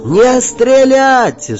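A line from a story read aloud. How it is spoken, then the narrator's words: Screaming with full force. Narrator (Russian): что из силы закричал я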